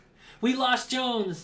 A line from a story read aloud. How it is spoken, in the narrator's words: the team leader yelled